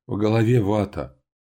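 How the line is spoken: Moaning. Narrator (Russian): простонала

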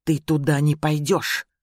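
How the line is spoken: Hissing. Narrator (Russian): Скай прошипел

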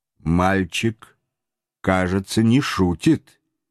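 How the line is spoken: Plain. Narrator (Russian): сказал майор

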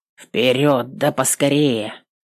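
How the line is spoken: Sullen mutter. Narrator (Russian): угрюмо пробурчал стражник

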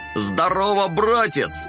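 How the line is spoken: Loud shout. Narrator (Russian): громко закричал он

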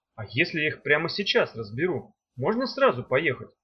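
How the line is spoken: Plain. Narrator (Russian): спросил Меф

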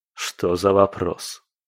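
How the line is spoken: Scoffing grunt. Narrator (Russian): хмыкнул Кирилл

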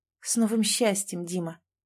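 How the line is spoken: Quiet. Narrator (Russian): негромко сказала Маша

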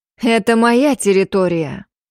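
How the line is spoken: Exhaled. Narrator (Russian): Выдохнула я

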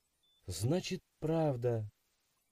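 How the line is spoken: Dejected whisper. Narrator (Russian): прошептала она, опустив голову

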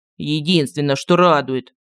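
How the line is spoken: Grumbled. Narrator (Russian): буркнул Мар

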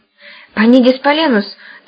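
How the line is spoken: Hurried whisper. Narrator (Russian): торопливо шепнула Таня

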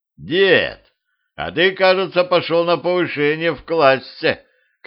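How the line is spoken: Shouted. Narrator (Russian): крикнул ему Петрович

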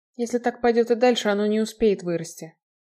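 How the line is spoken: Gloomy. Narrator (Russian): мрачно сказала Крита

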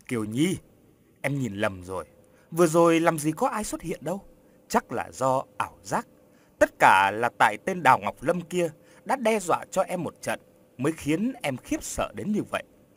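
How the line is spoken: Dismissive faint smile. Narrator (Vietnamese): Long cười nhạt rồi nói

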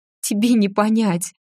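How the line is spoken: Breathless, ragged. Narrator (Russian): прерывисто выдохнула всадница

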